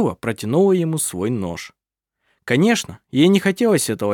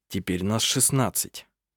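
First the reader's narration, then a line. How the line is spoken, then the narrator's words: Calm. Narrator (Russian): спокойно сказал Эрванд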